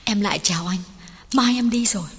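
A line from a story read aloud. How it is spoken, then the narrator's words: Hurried, trembling. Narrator (Vietnamese): Duyên đã vội vàng run run bảo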